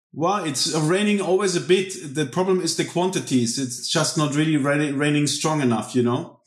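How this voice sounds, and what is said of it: Slight German accent. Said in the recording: “people can probably hear you've got a bit of a German accent”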